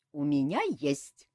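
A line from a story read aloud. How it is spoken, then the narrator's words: Giggling. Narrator (Russian): хихикнула Ольга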